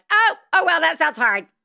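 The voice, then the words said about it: Mocking impression of an official voice. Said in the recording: “That's my impression of the government.”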